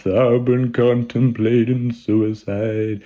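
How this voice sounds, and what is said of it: Mournful baritone singer impression. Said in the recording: “the mournful baritone ... my Nick Cave impersonation”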